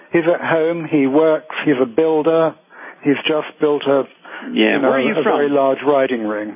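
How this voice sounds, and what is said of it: Slight British accent. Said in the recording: “you have a little bit of a British accent there”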